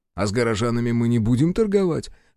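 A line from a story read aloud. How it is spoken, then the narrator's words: Summoned hero's snort. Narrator (Russian): хмыкнул призванный герой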